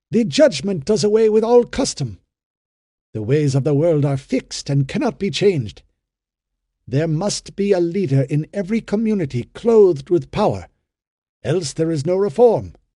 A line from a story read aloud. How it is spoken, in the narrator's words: he cried impulsively